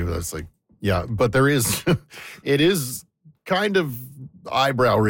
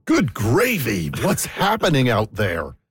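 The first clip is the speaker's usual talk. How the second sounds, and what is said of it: Very dramatic announcer-style delivery. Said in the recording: “in a very dramatic voice”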